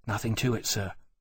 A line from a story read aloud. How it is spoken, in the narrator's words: Fellows said softly